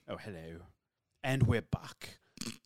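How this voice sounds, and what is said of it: Posh British character voice. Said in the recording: “Do Johnny English's voice ... just a posh British accent”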